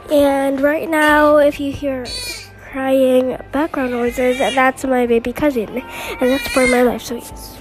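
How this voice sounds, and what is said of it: Weird, congested voice. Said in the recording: “my voice sounds weird, it's because I have a cold.”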